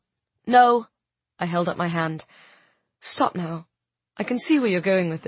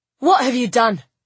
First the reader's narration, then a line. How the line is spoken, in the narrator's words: she cried, echoing Cedric